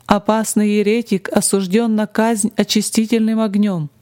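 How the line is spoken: Muffled low voice. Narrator (Russian): закончил кардинал глухим голосом

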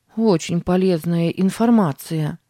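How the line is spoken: Grumbling. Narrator (Russian): проворчала Сара

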